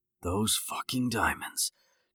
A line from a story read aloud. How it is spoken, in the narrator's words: Jake whispered to himself again